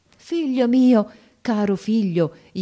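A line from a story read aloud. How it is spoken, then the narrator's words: Joyful exclamation. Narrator (Italian): esclamai con un trasporto di gioia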